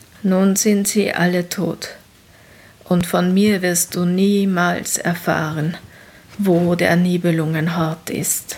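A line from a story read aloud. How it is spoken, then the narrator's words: Hoarse after pause. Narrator (German): sagte er nach einer Weile heiser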